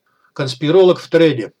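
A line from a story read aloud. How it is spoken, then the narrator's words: Amused snort. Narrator (Russian): хмыкнул Софт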